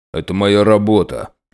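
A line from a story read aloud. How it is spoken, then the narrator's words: Grumble. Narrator (Russian): пробурчал Быстротейкин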